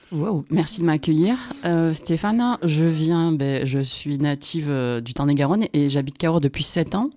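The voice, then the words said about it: Regional southwestern French accent. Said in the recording (French): “t'as un très joli accent... Accent du Tarn-et-Garonne... on l'entend”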